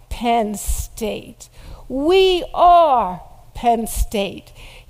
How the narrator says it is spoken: to roar back

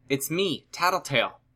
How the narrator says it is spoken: brought both hands to her mouth as she shouted

